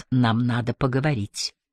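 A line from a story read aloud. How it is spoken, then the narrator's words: Barely audible. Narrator (Russian): чуть слышно произнес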